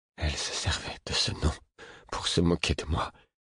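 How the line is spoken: Murmuring. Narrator (French): murmura-t-il

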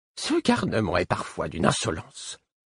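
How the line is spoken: Grumbled. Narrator (French): grommela-t-il

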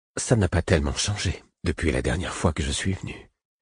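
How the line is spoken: Choked voice. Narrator (French): dit-il d'une voix étranglée

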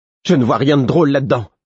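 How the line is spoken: Curt exclamation. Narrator (French): s'exclama-t-elle d'un ton sec

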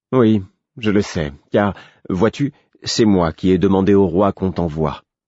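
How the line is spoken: Careful explaining tone. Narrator (French): m'expliqua Dame Patience d'un ton appliqué

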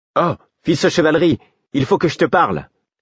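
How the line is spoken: Shouting. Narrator (French): cria-t-elle

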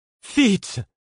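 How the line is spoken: Shouting. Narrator (French): cria-t-elle

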